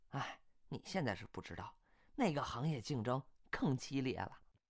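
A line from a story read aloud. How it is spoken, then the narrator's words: Girl sighing. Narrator (Chinese): 这个姑娘叹口气说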